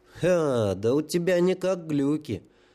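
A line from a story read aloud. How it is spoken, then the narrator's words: Sympathetic drawl. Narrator (Russian): с сочувствием протянул метрострой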